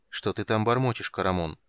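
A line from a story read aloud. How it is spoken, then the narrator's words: Grim question. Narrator (Russian): спросил Танис мрачно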